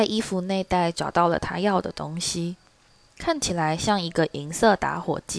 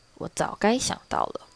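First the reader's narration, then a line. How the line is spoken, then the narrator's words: Chuckling, mumbling to himself. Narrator (Chinese): 他咯咯轻笑，并喃喃自语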